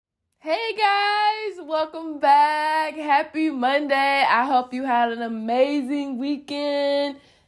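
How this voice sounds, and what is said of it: Sick-sounding voice. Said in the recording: “if you could tell it in my voice, I'm kind of getting over a bad, bad, bad bug”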